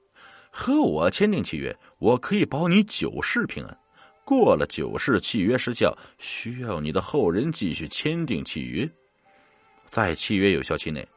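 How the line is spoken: Laughing. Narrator (Chinese): 那瓶子笑着说

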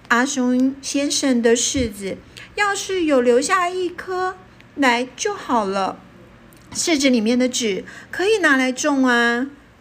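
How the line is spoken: Old woman sighing. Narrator (Chinese): 奶奶叹了一口气说

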